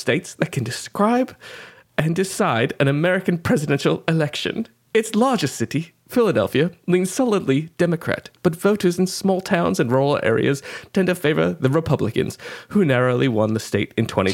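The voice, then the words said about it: Poor put-on British accent. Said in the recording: “shitty British accent, Dick Van Dyke”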